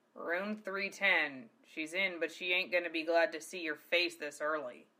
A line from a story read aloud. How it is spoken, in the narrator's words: he growled